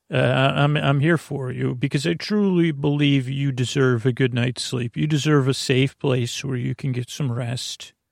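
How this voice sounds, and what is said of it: Creaky, soft dulcet voice. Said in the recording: “I sound different ... I do have creaky dulcet tones. I'm a bit strange and different.”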